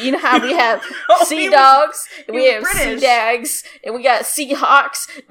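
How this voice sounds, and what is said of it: Put-on British accent. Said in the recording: “This is my British accent, by the way.”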